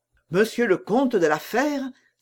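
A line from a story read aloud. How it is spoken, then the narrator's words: Exclaiming. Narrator (French): s'écria-t-il à son tour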